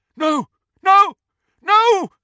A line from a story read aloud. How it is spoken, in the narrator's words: someone was shouting